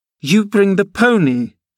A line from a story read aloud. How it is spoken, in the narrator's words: she exclaimed